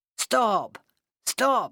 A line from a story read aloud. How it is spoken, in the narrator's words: he shouted